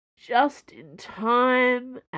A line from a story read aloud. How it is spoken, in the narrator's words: Aramis groaned